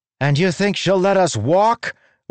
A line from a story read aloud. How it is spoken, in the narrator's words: one of the human women shouted